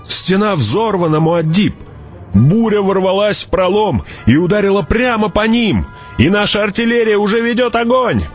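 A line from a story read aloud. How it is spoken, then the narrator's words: Shouting. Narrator (Russian): прокричал он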